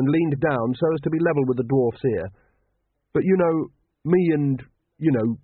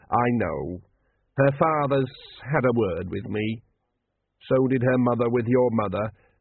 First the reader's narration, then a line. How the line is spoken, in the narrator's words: said the dwarf coldly